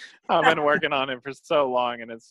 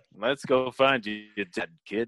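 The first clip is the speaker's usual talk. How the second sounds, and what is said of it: Lando Calrissian impression. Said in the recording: “my Lando Calrissian impression ... You did a good one ... it's so not good”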